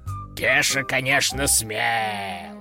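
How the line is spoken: Creaky voice. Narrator (Russian): проскрипел

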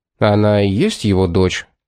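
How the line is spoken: Even-toned explanation. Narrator (Russian): ровным тоном пояснил Томас

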